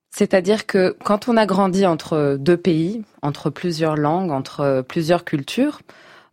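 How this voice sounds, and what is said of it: Slight foreign accent in French. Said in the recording (French): “on a un petit accent, comme c'est mon cas”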